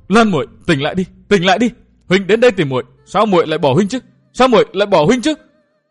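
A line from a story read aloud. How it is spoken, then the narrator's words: Anguished cry. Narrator (Vietnamese): Lâm Tứ gào lên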